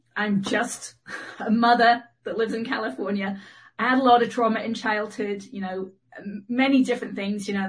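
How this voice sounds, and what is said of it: Mid-Atlantic accent with English roots. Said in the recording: “I'm actually from England, so I have a kind of mid-Atlantic accent.”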